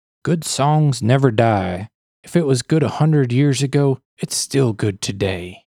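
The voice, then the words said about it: Imitates another person's voice. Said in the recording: “my impeccable Willie impression ... It sounded real.”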